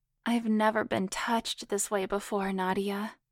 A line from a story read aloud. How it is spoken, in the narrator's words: Allison moaned